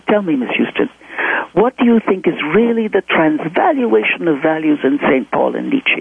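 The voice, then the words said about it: Thick foreign accent. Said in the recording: “He had a fairly thick accent.”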